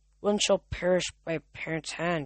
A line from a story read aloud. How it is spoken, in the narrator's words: muttered